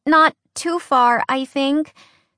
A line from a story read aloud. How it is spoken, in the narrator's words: Skyla said, her voice shaky